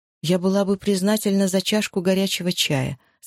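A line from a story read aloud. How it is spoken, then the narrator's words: Plain. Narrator (Russian): сказала Джози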